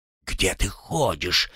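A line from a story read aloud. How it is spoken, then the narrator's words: Fat man's hissed whisper. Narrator (Russian): шепотом зашипел толстяк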